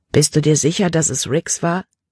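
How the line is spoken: Plain. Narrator (German): fragte

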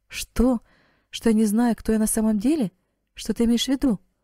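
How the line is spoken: Astonished young woman exclaiming. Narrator (Russian): воскликнула девушка, еще более пораженная, чем раньше

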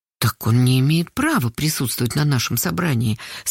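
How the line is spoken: Very quiet. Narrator (Russian): совсем тихо сказала Карпушкина

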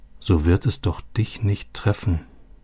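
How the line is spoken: Quiet repetition. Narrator (German): wiederholte Robby leise

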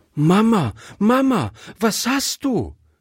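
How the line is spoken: Calling out. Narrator (German): rief Gretchen

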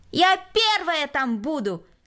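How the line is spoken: Shouted. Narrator (Russian): крикнула Кристина

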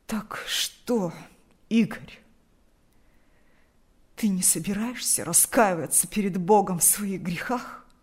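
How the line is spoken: Hoarse agitated voice. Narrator (Russian): От волнения голос отца хрипел

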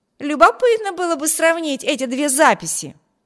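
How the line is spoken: Exclaimed. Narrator (Russian): воскликнул Виберт

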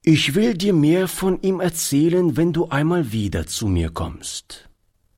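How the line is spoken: Plain. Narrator (German): antwortete Oliver

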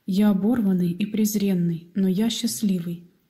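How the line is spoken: Plain. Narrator (Russian): ответил Том

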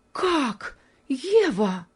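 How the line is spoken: Impatient exclamation. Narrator (Russian): воскликнула, от нетерпения

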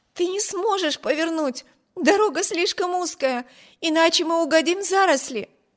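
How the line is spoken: Alarmed exclamation. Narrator (Russian): воскликнула Эми, уверенная, что при этой попытке карета непременно опрокинется

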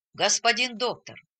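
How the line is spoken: Plain. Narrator (Russian): сказал он

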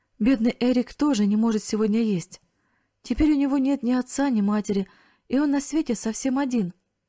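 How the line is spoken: Sobbing loudly through tears. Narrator (Russian): разразилась громкими рыданиями и произнесла сквозь слезы

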